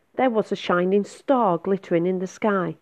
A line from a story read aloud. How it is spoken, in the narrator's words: cried Peaches